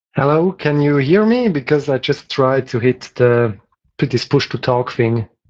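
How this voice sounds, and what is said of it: Mild Swiss accent. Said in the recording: “that's a lovely accent... Typical Swiss, I guess... Actually, milder than some.”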